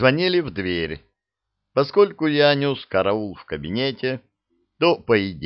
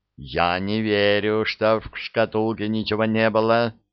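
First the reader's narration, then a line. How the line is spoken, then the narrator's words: Plain. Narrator (Russian): сказал Кури Вулфу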